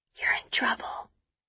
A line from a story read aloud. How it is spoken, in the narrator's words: she whispers